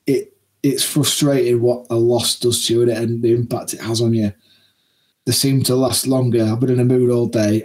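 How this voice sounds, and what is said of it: Tired, downbeat voice. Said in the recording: “you can probably tell in my voice. I'm tired and I'm downbeat.”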